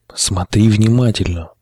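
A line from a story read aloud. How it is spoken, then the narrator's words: Whispered. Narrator (Russian): шепотом произнес шатун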